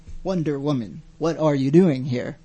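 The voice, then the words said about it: Poor Captain Kirk impression. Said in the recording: “That was so terrible. ... That was supposed to be my Captain Kirk impersonation. ... I was like, he's having a stroke, guys.”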